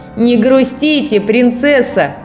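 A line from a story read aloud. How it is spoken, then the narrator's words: Shouted. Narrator (Russian): крикнул дровосек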